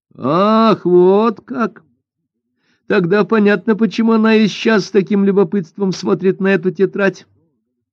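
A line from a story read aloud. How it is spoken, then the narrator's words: Joking. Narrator (Russian): пошутила Хунцюй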